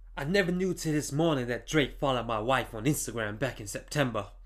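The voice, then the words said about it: Imitates another person's voice. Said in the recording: “do my best Kanye West impression”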